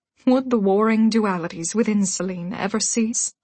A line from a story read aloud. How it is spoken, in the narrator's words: She sighed